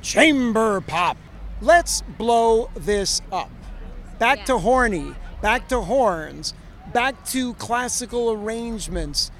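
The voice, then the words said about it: Exaggerated announcer voice. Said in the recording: “I'll do it in the full announcer voice.”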